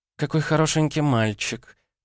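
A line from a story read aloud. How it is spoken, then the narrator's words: Cooing. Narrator (Russian): проворковала суккуба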